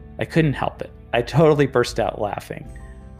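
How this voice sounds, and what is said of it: Usual voice. Nothing is said of it.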